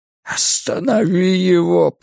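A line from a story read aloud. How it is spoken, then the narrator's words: Groaned. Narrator (Russian): простонал Ральф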